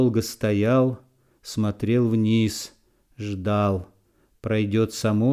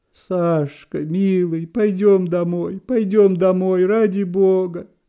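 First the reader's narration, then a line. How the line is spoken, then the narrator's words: Pleading. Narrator (Russian): Взмолилась Вера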